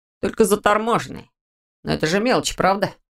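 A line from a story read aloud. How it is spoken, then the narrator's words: Sarcastic question. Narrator (Russian): язвительно спросил он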